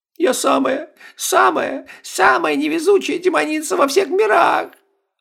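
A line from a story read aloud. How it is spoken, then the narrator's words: Sobbing again. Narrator (Russian): Снова зарыдала Стефания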